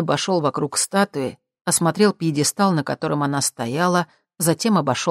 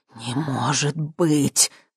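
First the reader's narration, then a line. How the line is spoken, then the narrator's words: Excited gasp. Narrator (Russian): Возбужденно выдохнул Ипполит Германович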